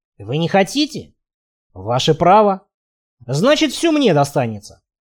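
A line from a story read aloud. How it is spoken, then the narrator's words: Smug snort. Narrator (Russian): Хмыкнул я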